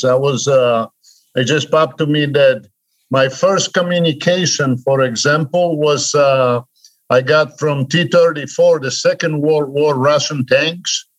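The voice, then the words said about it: Polish accent in English. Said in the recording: “my accent, I left Poland. I escaped from Poland when I was 31... you're never going to get rid of that accent”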